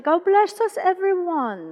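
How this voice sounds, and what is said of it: Put-on British accent. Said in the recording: “you can even put a little British accent to it”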